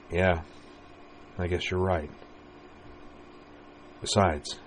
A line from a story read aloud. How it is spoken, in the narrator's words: She smiled softly and murmured